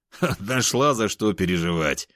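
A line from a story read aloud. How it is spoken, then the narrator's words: Laughing. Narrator (Russian): рассмеялся я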